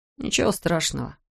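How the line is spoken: Muttering. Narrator (Russian): пробормотал Эндрю

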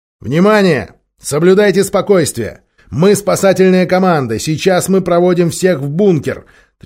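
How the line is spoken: Loud, deliberately calm reassurance. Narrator (Russian): 13-й говорил громко и подчеркнуто спокойно, чтобы добавить людям хотя бы немного уверенности

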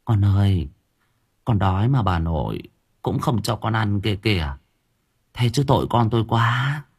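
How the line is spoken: Soft murmuring. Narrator (Vietnamese): thủ thỉ

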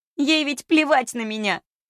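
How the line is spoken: Exclamation breaking into sobs. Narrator (Russian): Воскликнув вдруг срывается на рыдание

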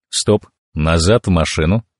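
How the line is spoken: Quiet command. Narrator (Russian): тихо скомандовал я

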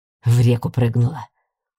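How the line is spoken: Displeased mumbling. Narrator (Russian): недовольно пробурчал профессор Ансгар

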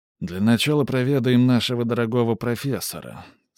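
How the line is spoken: Surprisingly tired voice. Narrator (Russian): сказал он, и его голос прозвучал на удивление устало

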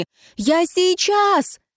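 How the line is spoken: Shouting. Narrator (Russian): крикнула

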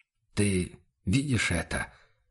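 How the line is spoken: Barely audible whisper. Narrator (Russian): шепнул Бруно уже едва различимо

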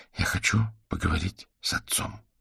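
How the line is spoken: Quiet speech. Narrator (Russian): тихо сказал Василь

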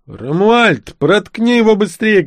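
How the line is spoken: Shouting teenager. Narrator (Russian): крикнул подросток

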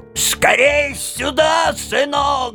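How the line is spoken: Old woman shouting. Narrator (Russian): закричала старуха

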